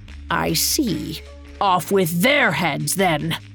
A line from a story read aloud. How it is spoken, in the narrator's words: the queen grunted